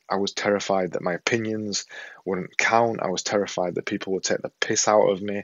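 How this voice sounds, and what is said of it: Yorkshire accent. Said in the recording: “my accent, the thing coming out of here ... this silly Yorkshire accent”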